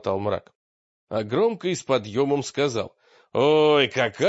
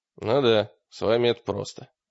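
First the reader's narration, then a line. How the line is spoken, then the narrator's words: Gruff mutter. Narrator (Russian): буркнул Гольш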